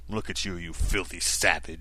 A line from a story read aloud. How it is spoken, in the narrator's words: he growled